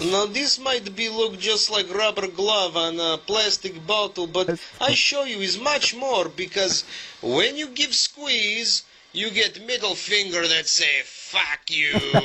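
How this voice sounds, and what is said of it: Comic foreign accent, Marcus from Borderlands. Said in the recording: “it's the accent that got me. I was laughing my ass off. ... It's guy, man. ... Marcus from Borderlands?”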